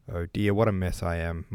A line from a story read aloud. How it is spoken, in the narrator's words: muttered Rostov